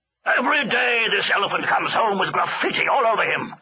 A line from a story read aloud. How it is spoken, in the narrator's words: shouted the elephant master